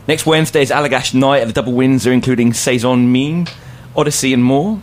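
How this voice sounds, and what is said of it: British accent. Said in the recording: “his accent ... That guy sounds dreamy ... You need a British co-host at this point.”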